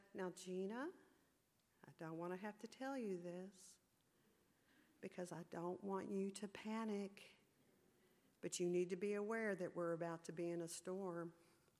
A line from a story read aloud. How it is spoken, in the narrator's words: she tranquilly turned to me and gently said